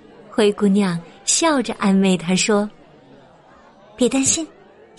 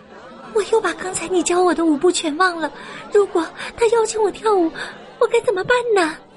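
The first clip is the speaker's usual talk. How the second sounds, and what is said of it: Worried, quiet whispered voice. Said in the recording (Chinese): “他担心的小声问”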